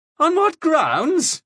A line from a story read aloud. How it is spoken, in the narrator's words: he cried